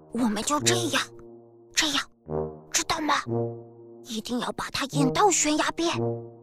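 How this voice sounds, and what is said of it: Quiet whispered speech. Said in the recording (Chinese): “在小福和壮壮耳边小声地说了几句”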